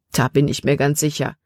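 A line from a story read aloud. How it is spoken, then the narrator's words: Plain. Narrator (German): antwortete er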